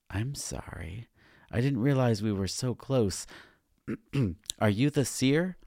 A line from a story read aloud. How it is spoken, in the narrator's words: I asked nervously